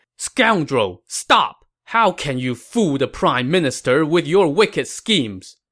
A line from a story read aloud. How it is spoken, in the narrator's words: Zhang Bao shouted